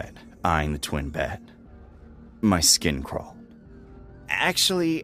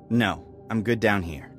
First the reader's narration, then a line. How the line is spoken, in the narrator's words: I said firmly